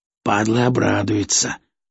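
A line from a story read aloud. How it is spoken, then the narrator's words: Grumbling. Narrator (Russian): проворчал Мешок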